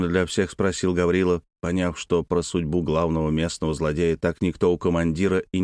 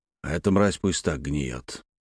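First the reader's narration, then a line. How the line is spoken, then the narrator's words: Through gritted teeth. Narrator (Russian): процедил сквозь зубы юноша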